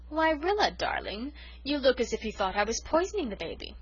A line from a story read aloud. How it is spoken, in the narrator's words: she said, oh so sweetly